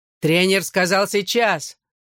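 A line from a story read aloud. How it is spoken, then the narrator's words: Barking, strong accent. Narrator (Russian): рявкнул Джонни со своим сильным дублинским акцентом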